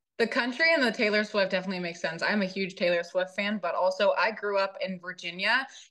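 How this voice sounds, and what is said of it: Slight Southern Virginia accent. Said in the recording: “I do have a little bit of a, you know, Virginia accent. It's sounding a little more Southern than I would like”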